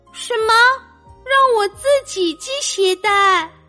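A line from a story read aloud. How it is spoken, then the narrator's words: Astonished. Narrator (Chinese): 歪歪兔吃惊的张大了嘴巴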